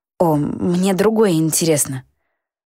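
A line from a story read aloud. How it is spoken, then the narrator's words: Forced out, strained. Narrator (Russian): выдавила я из себя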